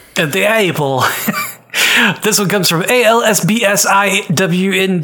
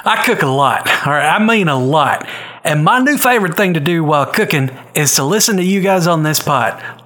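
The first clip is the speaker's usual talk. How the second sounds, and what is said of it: Thick put-on Southern US accent. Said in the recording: “read in a thick southern accent”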